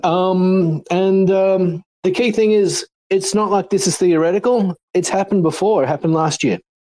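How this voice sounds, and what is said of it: Speaker with a distinctive accent. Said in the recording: “I like this guy's accent.”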